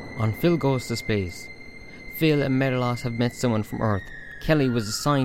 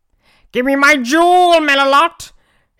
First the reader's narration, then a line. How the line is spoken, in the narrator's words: shouted Vetch